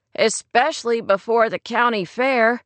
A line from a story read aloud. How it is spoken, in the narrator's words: Rory laughed